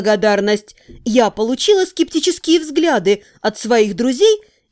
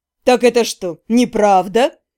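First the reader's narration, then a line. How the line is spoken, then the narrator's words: Skeptical snort. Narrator (Russian): хмыкнул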